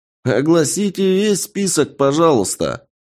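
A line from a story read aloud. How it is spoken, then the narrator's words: Cheerful guffaw. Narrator (Russian): весело гоготнул кто-то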